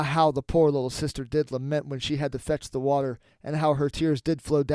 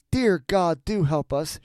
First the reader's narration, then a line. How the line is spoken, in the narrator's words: she cried